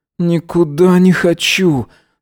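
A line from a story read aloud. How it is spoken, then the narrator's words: Moaning. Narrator (Russian): стонал он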